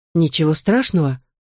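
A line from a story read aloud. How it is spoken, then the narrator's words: Calm. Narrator (Russian): спокойно ответила Сьюзен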